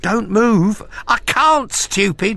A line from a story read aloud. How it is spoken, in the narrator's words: she cried